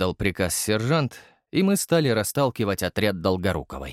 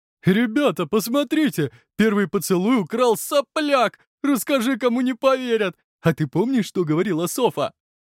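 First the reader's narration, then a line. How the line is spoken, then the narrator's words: Laughing. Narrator (Russian): рассмеялся Альберт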